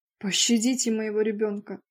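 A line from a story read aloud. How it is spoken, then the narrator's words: Moaning plea. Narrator (Russian): простонала Арния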